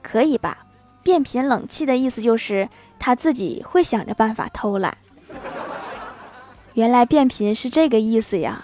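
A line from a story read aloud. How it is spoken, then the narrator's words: Plain. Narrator (Chinese): 郭晓霞问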